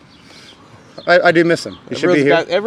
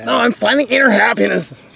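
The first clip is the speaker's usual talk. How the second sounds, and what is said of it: Imitates another person's voice, badly. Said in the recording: “That was a bad Tyler impression”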